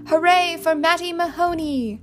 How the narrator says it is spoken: the band members shouting in unison

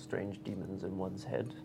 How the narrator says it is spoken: Brom mutters to nobody in particular

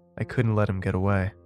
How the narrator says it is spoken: she said coldly

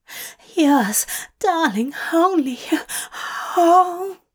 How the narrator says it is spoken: He moaned loudly

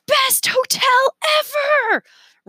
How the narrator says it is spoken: Remy shouted

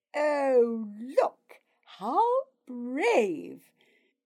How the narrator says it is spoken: Gremla sneered

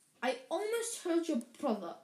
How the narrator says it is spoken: Hermione snapped

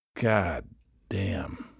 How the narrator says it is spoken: moaned

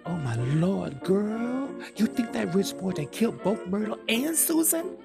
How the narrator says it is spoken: Sally gasps

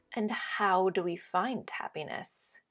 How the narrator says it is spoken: spoke this a little more slowly, a hint of threat in his voice

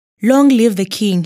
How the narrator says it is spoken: he exclaimed

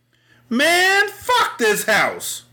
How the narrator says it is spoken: one cop yelled

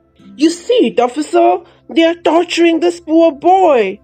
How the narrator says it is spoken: screamed Bugs Meenie

